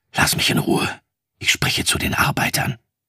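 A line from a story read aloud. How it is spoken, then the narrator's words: Angry whisper. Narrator (German): voll Zorn geflüstert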